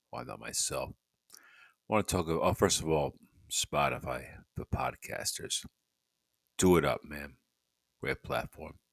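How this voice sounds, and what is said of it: Tired, sleepy voice. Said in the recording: “That's why I sound so tired.”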